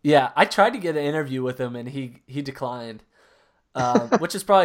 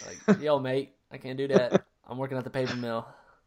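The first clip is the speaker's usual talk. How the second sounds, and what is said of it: Very bad put-on Australian accent. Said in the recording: “that was the worst Australian accent I've ever heard”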